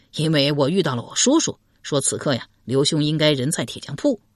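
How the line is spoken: Laughing. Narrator (Chinese): 阮咸也笑道

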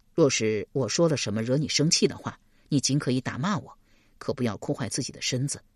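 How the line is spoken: Gentle, soothing. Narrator (Chinese): 邓毅莫名其妙，又不好多问，只得柔声安慰道

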